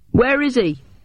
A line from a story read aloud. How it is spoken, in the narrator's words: Bucket yelled